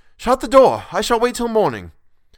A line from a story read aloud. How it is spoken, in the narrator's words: I cried out